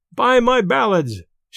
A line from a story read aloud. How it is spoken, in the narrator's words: shouted Benjamin